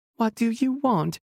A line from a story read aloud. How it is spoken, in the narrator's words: Sharon asked, her voice cracking